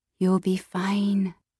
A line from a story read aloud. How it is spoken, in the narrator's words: whispered